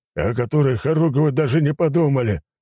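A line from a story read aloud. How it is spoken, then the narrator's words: Exasperated grumbling. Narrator (Russian): не выдержав, проворчал Кожедуб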